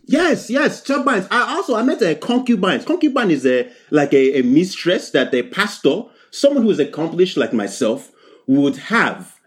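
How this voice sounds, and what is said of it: Strong foreign accent. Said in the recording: “your accent is strong, so sometimes I don't catch a word or two”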